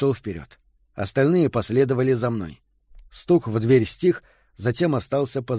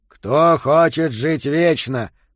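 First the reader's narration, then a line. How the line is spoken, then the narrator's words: Growling. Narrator (Russian): прорычал Йота, и ровное эхо отразилось от плитки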